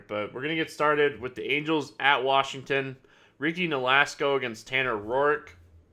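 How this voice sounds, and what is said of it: Stuffy, congested nasal voice. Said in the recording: “My allergies have been killing me, so if I sound different, if I sound like my nose is stuffed up”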